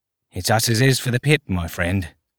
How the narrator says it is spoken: he said under his breath

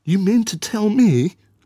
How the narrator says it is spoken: she exclaimed

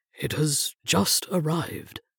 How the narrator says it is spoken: Matthews mumbled, unable to look me in the eye

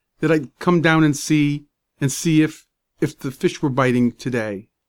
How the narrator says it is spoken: stammered

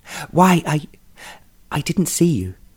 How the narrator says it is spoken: she stammered

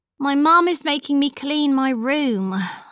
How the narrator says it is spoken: I sighed

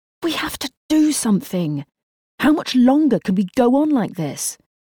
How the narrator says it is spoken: Jeremy was silent until he exclaimed

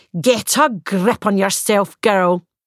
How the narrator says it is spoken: she said harshly

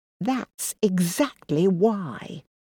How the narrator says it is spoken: she hissed

